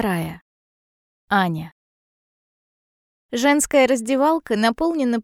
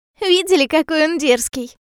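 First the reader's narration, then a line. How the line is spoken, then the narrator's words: Giggling. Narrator (Russian): Хихикает Лиза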